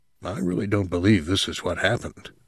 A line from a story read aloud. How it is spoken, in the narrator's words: Ben said to him in a low voice